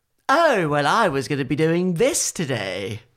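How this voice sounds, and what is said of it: Smug character voice. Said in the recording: “do a really good impression. He's very smug.”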